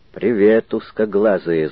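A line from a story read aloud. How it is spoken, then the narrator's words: Angry speech. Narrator (Russian): зло сказал замок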